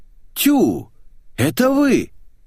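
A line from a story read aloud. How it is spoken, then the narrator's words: Woman exclaiming. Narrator (Russian): женщина воскликнула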